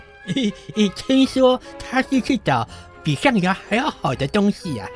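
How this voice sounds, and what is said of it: Usual voice. Nothing is said of it.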